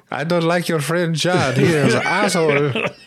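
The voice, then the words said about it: Poor put-on Indian accent. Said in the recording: “What does Indian Australian sound like? ... It's universal, that accent ... He does a very poor, poor Indian accent”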